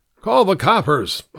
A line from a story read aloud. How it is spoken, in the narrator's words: I shouted over my shoulder